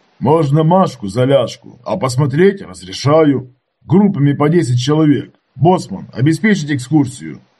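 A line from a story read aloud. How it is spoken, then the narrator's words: Loud bark. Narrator (Russian): гаркнул Иванович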